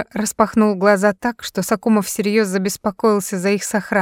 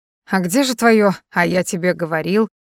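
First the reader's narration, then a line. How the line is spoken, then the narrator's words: Mocking question. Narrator (Russian): спросил насмешливо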